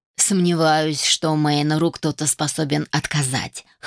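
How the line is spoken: Wry snort. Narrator (Russian): хмыкнул принц

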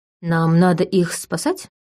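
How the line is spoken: Uncertain question. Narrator (Russian): неуверенно спросил Матвей

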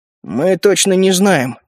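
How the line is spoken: Grumbled. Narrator (Russian): пробурчал Эдал

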